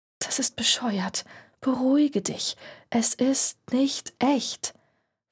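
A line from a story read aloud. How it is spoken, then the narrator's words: Whispering to herself. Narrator (German): flüsterte sie sich selbst zu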